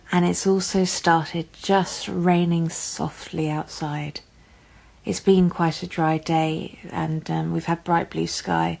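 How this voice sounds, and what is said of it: English accent. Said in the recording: “as you can probably guess from my accent, I am based in England and in London”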